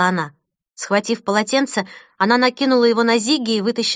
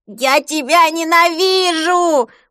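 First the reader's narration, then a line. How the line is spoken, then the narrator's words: Yelling. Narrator (Russian): вопил он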